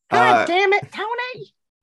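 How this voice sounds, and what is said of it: Imitates another person's voice. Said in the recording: “good Carm impression? ... A little bit.”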